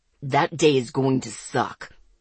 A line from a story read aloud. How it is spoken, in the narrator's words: Zeke growled